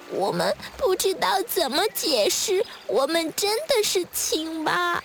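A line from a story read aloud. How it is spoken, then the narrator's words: Quiet tearful voice. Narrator (Chinese): 小蝌蚪们哭哭啼啼地，然后很小声地说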